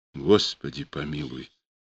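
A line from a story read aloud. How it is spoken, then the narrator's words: Frightened. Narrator (Russian): сказала она испуганно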